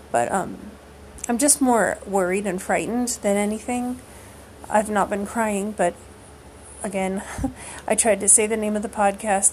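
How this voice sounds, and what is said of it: Strained, failing voice. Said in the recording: “I'm losing my voice because I've done a lot of talking today, and I've also been emotional.”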